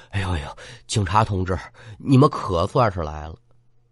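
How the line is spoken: Panting. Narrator (Chinese): 老陆……边喘边说

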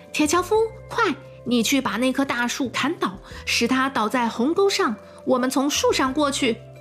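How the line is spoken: Shouting. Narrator (Chinese): 他对铁樵夫大喊

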